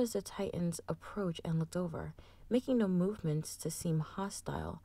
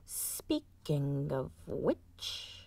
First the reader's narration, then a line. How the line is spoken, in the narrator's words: Kervis muttered